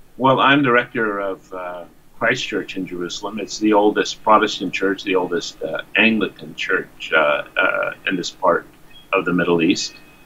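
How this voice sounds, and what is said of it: American accent. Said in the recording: “I come from the United States. I think everyone can hear that by my accent.”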